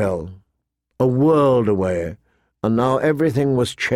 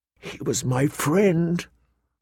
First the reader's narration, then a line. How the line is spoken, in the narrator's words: Arya whispered into her plate, so low that no one could hear